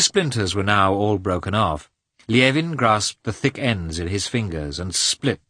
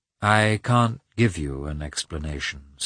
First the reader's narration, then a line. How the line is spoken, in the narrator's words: said Lievin, softly and slowly, trying to control the trembling of his jaw